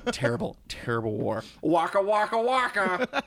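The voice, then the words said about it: Groucho Marx impression. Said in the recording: “Doing a Groucho Marx impression.”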